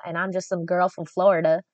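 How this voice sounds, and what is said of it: Put-on country accent. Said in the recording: “I say it like a country accent, like I'm from the country.”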